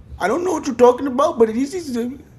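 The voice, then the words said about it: Put-on Indian-sounding accent. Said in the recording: “fake Canadian accent ... I was a little Indian in that ... full-blown. Full-blown Indian?”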